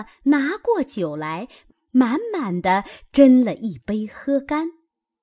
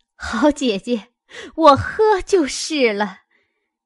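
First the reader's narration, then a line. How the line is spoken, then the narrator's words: Laughing. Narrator (Chinese): 凤姐儿笑道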